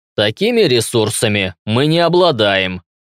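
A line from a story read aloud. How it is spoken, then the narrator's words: Through gritted teeth. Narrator (Russian): процедил Мышкин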